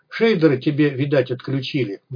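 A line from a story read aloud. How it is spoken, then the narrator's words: Gloomy. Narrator (Russian): мрачно произнес Малахов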